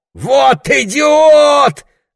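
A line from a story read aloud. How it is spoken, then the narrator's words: Yelling. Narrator (Russian): орал Лесли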